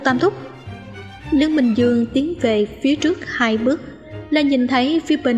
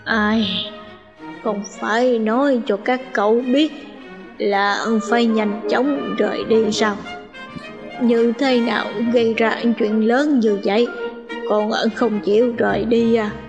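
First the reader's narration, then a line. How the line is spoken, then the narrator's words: Sighing mutter. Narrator (Vietnamese): Ngô Tam Thúc thở dài, tựa hồ lẩm bẩm nói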